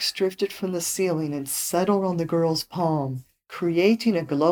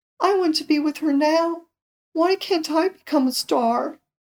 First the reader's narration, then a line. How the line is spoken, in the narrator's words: the girl sobbed